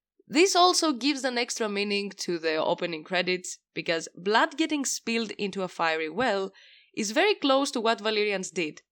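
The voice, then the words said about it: Unwell, congested voice. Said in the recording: “sorry about my voice ... I have a problem in my ear and it hits my nostril and throat too”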